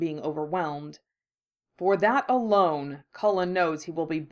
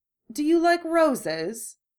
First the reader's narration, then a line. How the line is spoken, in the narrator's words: the merchant asks in her lilting voice